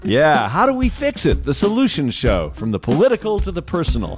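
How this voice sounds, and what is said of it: Polished radio announcer voice. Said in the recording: “That's your radio voice”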